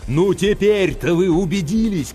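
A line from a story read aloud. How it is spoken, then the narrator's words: Loud deaf-like shout. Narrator (Russian): крикнул капитан, словно глухой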